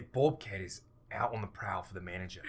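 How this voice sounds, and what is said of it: Put-on Australian accent. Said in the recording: “You should say that in an Australian accent.”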